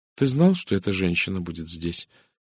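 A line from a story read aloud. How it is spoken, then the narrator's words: Quiet question. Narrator (Russian): тихо спросила миссис Редферн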